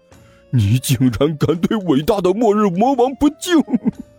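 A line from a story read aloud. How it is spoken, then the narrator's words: Angry roar, husky. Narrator (Chinese): 哈士奇怒吼了一声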